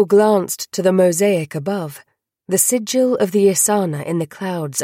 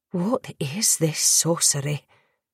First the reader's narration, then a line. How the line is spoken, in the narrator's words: whispered